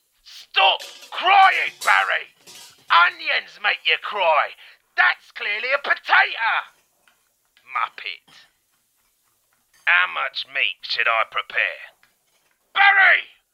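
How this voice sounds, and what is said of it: Angry shouting. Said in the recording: “I'm sorry for shouting. ... So when I shout, it's just passion”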